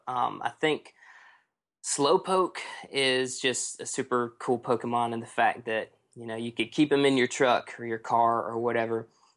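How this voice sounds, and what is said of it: Southern American accent. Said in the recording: “you have like this southern accent”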